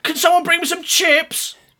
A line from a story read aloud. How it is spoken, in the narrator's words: Gret shouted until he was hoarse